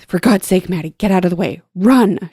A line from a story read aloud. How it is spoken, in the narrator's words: gasped as she shot past